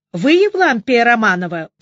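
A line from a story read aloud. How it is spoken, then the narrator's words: Thundering voice. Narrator (Russian): прогремел Ребров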